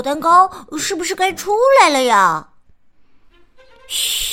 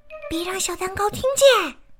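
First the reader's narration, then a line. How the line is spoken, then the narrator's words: Whispering. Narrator (Chinese): 米莉小声说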